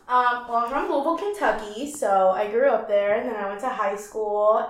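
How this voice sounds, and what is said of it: Southern American accent. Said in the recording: “your southern accent ... From Kentucky, yeah.”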